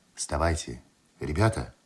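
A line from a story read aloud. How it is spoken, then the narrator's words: Quiet call. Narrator (Russian): тихо позвал Андреев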